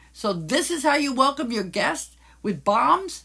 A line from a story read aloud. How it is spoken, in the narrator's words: Franz angrily shouted at the mayor